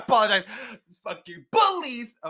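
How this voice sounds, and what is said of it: Screaming. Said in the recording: “Sorry, I'm screaming in there.”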